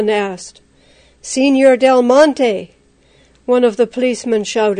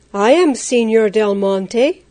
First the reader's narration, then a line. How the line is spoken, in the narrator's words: Juan replied as calmly as he could